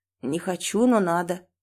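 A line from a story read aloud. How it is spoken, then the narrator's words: Sleepy reply. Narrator (Russian): сонно отвечает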